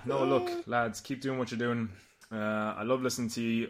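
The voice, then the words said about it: Irish accent with slight German tinge. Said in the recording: “a gorgeous, delicious accent ... a real Irishman ... You can almost hear a little bit of the German in there too”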